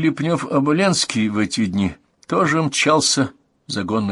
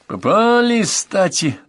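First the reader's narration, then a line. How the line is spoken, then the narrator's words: Satisfied laughing. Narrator (Russian): довольно захохотал князь Овчина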